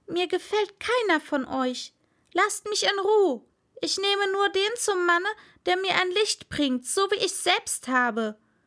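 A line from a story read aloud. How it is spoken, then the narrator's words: Angry shout. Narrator (German): wurde endlich ärgerlich rief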